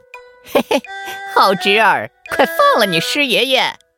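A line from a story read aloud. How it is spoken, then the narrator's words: Happy chuckling. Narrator (Chinese): 心里别提多高兴了，他笑呵呵地说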